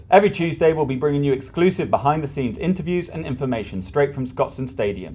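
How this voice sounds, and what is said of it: Thick Glaswegian accent. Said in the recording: “my thick Glaswegian accent”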